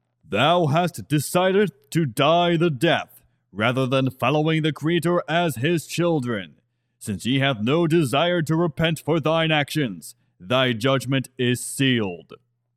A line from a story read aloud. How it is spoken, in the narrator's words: a full-blooded fox being, and in the fox language, his boomed and declared